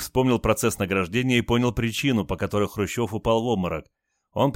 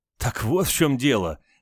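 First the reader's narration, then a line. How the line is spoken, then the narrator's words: Mother-in-law laughing loudly. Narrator (Russian): расхохоталась теща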